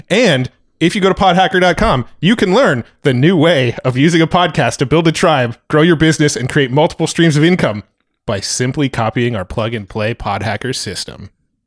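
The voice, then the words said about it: Salesy announcer pitch voice. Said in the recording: “His announcer voice comes on ... I go into pitch mode”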